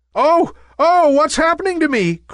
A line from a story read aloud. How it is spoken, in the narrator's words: cried Nimbus in fear